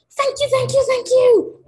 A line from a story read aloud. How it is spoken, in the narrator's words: screamed